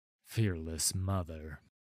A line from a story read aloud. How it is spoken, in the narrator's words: Sigvar murmured